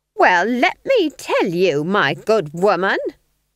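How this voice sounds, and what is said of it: Shrieking, hostile tone. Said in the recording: “shrieked Nanny ... Don't you dare talk to me in that tone of voice.”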